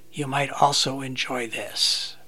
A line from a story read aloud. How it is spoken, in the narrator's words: will quietly whisper